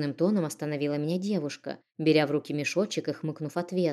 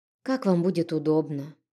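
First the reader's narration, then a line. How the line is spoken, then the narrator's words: Sighing. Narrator (Russian): вздохнув, сказала я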